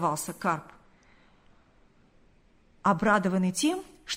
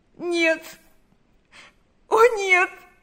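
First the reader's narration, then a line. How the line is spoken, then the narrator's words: Sobbing. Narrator (Russian): зарыдала она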